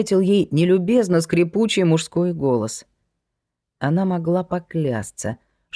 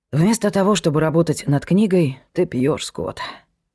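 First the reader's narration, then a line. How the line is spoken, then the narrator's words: Muttered with a sigh. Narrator (Russian): пробормотала она со вздохом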